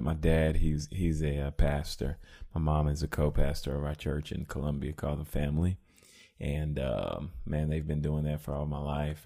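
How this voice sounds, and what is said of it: Radio announcer-like voice. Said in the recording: “do you hear how his voice is like a radio voice?”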